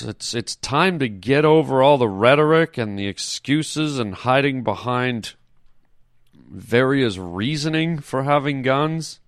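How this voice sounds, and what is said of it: Somber, grave tone. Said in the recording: “in my somber voice”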